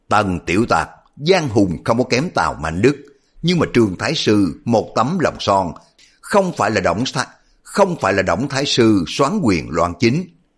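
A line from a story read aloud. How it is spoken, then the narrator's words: Loud laughing speech. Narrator (Vietnamese): Trương Cư Chính cười to nói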